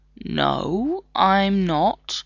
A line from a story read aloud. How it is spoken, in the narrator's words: John said slowly